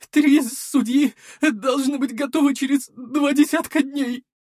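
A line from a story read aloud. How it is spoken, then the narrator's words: Tearful voice. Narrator (Russian): плачущим голосом ответил альтиец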